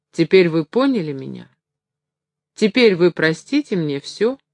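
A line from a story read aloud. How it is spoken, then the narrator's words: Mocking hunchback's question. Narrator (Russian): насмешливо спросил горбун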